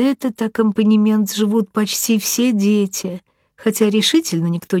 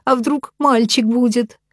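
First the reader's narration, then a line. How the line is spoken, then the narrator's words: Sobbing. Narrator (Russian): всхлипывает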